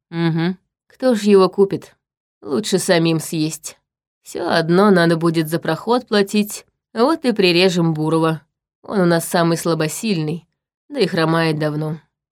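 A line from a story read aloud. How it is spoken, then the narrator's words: Grim. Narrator (Russian): мрачно сказал Черим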